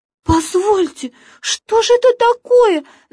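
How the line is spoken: Tiny squeaky creature. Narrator (Russian): запищала козявочка

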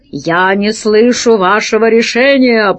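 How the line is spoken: Growled. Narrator (Russian): прорычал Пашка

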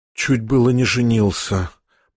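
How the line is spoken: Whispered. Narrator (Russian): прошептал

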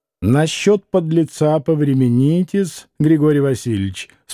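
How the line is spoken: Calm, restrained retort. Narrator (Russian): спокойно и сдержанно отразил Смердяков

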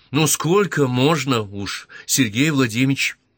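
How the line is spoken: Exclaimed. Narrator (Russian): Воскликнула, как ни странно, Маргарита

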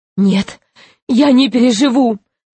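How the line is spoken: Sobbing. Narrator (Russian): рыдал Гарольд Иванович

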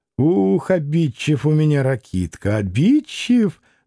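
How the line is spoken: Laughing. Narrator (Russian): Засмеялась Грушенька

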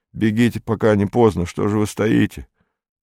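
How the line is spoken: Mechanical muttering. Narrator (Russian): Он уже знал, что говорит бессмыслицу, но это была инерция долга, и он продолжал машинально бормотать

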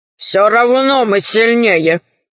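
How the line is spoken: Grumbling. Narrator (Russian): проворчал колдун в шкурах

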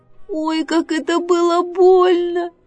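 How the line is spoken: Loud squeal. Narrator (Russian): Мишка-медвежушка завизжал на весь лес

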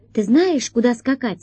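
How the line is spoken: Plain. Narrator (Russian): спросила Алиса

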